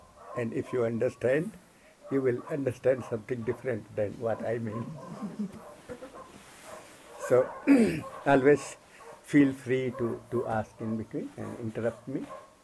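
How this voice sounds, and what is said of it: Indian-accented English. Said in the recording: “my, you know, Hindi accent, English”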